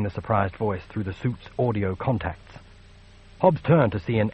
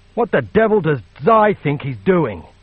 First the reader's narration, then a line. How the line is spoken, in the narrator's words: the engineer spat